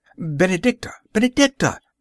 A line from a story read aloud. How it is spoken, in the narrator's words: I cried aloud